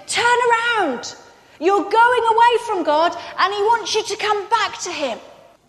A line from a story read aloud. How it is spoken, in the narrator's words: the prophets came from God and they shouted